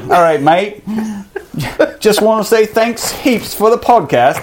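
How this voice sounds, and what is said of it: Attempted Australian accent sounding British. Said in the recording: “You do this in the Australian voice? ... That's straight British.”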